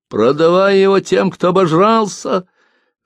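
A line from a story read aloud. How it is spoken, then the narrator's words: Old woman shouting. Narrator (Russian): В толпе старуха закричала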